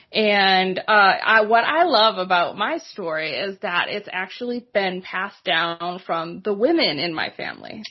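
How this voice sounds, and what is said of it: Boston area accent. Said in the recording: “if my accent isn't a clue, yes, I'm from the area. Grew up about 8 miles north of Boston.”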